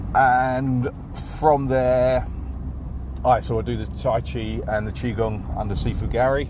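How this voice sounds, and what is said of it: English London accent. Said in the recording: “I've got an English accent. Originally from London”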